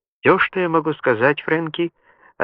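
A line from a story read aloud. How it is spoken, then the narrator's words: Calm. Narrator (Russian): ответил Джибальди спокойно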